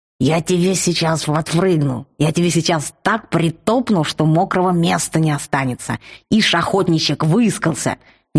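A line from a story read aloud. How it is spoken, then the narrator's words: Furious raging creature. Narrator (Russian): не на шутку разбушевался рычарк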